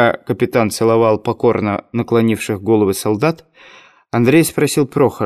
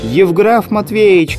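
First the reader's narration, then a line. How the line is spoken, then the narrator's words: Shouting from afar. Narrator (Russian): кричал он издали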